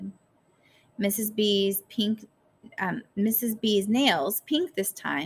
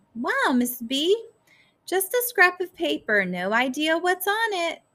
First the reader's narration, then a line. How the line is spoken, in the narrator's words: she said cheerfully